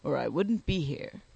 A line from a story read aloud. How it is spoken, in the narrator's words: replied Sponge, adding with a grunt